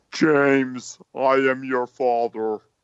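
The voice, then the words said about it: Deep Darth Vader-style voice impression. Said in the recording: “a Darth Vader swamp monster ... doing a voice ... that was a terrible impression”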